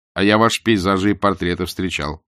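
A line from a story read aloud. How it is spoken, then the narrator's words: Plain. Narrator (Russian): сказал Литвин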